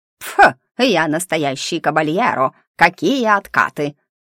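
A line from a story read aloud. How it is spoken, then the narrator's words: Snorting, wooden creature. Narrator (Russian): фыркнул деревянный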